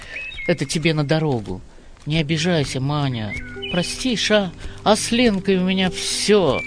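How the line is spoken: Desperate and sad. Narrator (Russian): отчаянно и грустно сказал он

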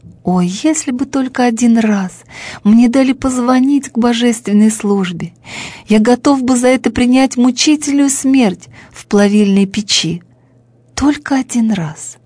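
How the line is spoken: Sorrowful sobbing. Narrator (Russian): И Бим-бим горестно зарыдал

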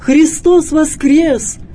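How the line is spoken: Shouted. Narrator (Russian): крикнул ему Максим

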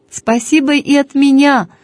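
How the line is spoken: Distant shout. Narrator (Russian): прокричала я из кузова машины

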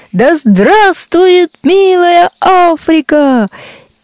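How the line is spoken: Loud shout. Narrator (Russian): Айболит громко кричит

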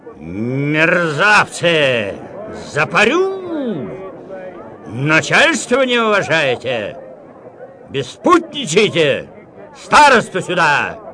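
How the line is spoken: Shout. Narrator (Russian): Васька Свищ крикнул

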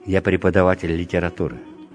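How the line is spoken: Plain. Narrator (Russian): сказал Греков

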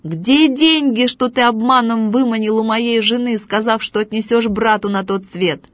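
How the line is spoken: Shouted. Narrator (Russian): закричал

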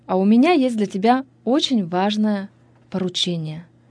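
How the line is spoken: Joyful old woman. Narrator (Russian): радостно сказала баба Таня

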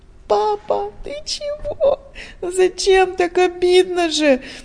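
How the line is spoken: Tearful cry. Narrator (Russian): вскрикнула сквозь слезы Диана

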